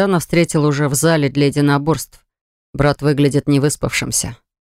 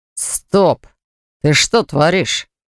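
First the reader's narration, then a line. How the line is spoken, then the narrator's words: Angry, spitting blood. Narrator (Russian): Зло спрашивает упавший брат, сплевывая кровь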